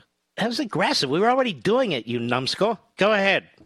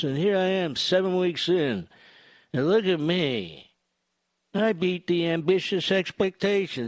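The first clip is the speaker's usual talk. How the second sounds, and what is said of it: Imitates another person's voice. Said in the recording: “my Biden imitation ... It's the best ... Spot on”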